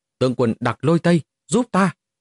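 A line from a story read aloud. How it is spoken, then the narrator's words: Terrified loud cry. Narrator (Vietnamese): Mục Thiên Hoa lập tức quá sợ hãi, cao giọng hô to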